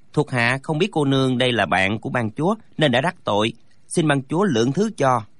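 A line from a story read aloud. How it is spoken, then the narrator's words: Deferential, respectful. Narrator (Vietnamese): Chúng thi lễ nói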